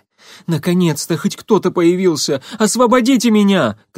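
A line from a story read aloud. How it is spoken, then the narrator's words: Shout. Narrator (Russian): крикнул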